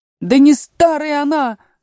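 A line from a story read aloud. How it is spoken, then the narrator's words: Frenzied wailing. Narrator (Russian): завопил двойнюшечка, приходя в совершеннейшее исступление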